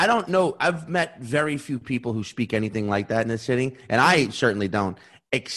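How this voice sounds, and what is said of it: Usual voice. Nothing is said of it.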